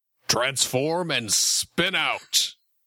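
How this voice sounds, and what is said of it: Bad Optimus Prime impression. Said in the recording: “that voice. That little bad Optimus Prime impression”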